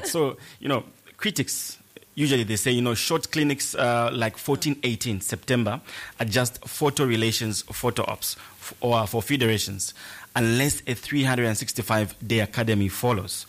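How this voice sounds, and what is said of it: Accent hard to understand. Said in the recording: “It's the it's the accent that gets me.”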